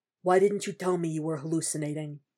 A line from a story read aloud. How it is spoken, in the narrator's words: Frank asks in an undertone, something somber in his voice